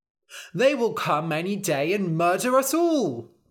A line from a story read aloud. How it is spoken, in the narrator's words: cried the townspeople